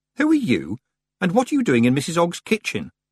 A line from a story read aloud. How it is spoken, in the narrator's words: Tiffany said sharply